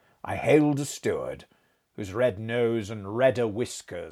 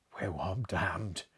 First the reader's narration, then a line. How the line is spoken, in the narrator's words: said he in a low voice